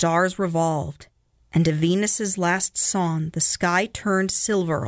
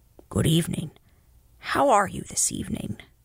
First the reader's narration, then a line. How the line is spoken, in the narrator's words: the crane murmured softly again